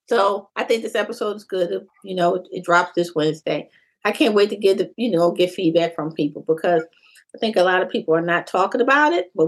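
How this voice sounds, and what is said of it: Hoarse, strained voice. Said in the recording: “I'm getting hoarse.”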